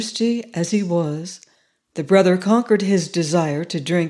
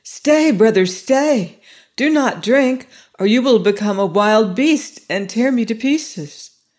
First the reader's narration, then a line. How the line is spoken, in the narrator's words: she cried quickly